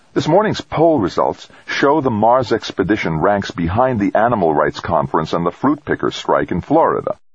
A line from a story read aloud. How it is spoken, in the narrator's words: One of the women, roundly overweight and pasty-faced, said in a crisp, biting tone